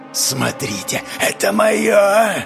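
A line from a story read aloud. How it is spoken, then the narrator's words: Menacing voice. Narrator (Russian): произнесла она грозным голосом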